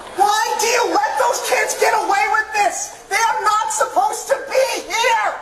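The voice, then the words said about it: Loud angry yelling. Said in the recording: “lower your voice ... You lower your voice ... yelling she at the top of his lungs”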